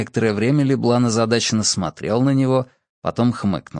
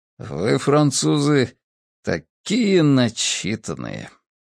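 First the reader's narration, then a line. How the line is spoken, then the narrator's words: Grumbling. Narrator (Russian): проворчал Джессоп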